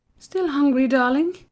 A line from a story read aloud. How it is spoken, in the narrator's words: cooed at her son